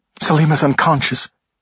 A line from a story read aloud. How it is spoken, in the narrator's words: said breathlessly